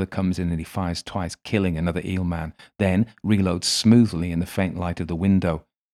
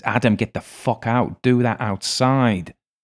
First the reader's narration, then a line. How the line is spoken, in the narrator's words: He hisses